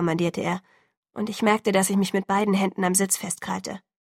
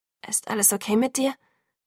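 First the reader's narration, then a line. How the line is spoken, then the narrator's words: Hoarse, surprised question. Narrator (German): fragte, überrascht davon, wie heiser meine Stimme klang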